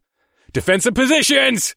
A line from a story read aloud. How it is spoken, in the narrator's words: I shouted